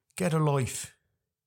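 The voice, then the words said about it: Put-on Irish accent. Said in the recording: “That was my Irish accent there”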